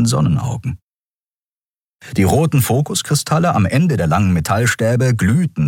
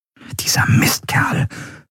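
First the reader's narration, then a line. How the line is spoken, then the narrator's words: Whisper. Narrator (German): flüsterte Andriel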